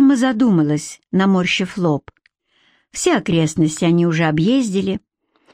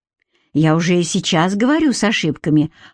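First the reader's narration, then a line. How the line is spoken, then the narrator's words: Snorted. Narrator (Russian): хмыкнул Оливер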